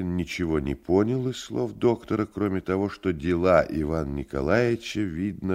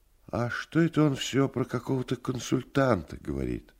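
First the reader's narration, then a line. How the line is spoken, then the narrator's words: Sighing question. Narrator (Russian): Вздохнул и спросил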